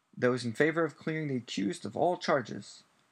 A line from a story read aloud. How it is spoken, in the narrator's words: said Madame Bones's booming voice